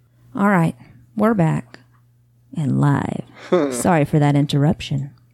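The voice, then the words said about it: Sultry radio DJ voice. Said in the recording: “radio voice ... Yes, this is a sexy voice.”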